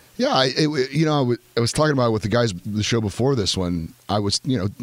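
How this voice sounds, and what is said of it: Strained, slightly nasal voice. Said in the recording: “My voice may not be here... It's a tad bit nasally”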